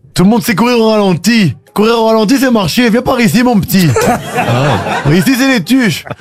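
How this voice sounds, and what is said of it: Les Tuches characters' accent. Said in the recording (French): “Vous faites l'accent des tuches.”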